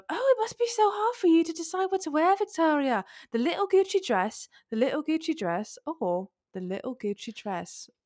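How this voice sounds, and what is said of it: Badly done put-on accent. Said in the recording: “Apologies for my terrible accent.”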